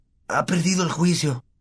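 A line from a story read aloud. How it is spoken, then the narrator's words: Murmur. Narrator (Spanish): murmuró Ron a Harry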